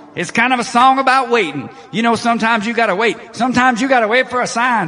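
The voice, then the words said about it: Preacher-style sermon delivery. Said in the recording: “You're getting your preacher voice on.”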